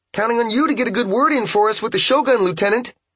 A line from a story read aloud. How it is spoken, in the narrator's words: cried Ipe